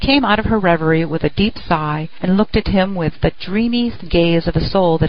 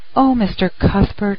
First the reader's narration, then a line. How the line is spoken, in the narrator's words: she whispered